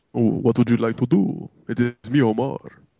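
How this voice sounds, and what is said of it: Made-up Dracula-like accent. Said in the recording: “Why is ... Dracula?... That was a Dracula accent?... I had no idea what accent that was. I just kind of made it up.”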